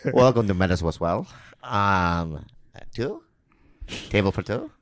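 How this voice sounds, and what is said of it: Thick put-on waiter accent. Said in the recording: “Your accent a little thick ... the accent was a little bit...”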